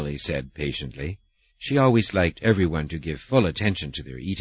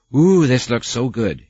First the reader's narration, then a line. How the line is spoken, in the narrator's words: Hazeline said, happily